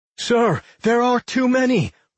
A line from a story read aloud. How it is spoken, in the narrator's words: one of the guard lieutenants cried out in fear